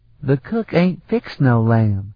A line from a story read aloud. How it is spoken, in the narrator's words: the girl whined